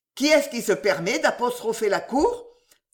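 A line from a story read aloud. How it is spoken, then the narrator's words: Judge exclaiming. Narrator (French): s'écria le petit juge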